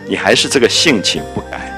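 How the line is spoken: Smiling. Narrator (Chinese): 那湘云就笑着说

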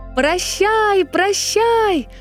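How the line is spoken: Shouting together. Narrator (Russian): закричали принц и принцесса

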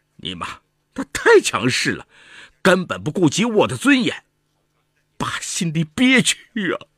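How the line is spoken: Choked up. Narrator (Chinese): 赵雪川哽咽了，说

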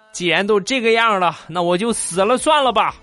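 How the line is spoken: Pained shouting. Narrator (Chinese): 一脸痛苦的，嘴里边喊着

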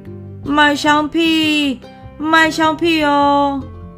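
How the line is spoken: Loud hawking cry. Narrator (Chinese): 他开始大声的叫卖

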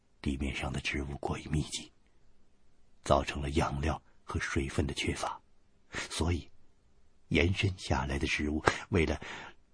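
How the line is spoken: Low voice. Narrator (Chinese): 雪莉杨低声对我说

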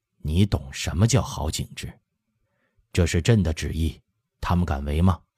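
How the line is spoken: Low, smiling. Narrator (Chinese): 和珅换了微笑，低声说

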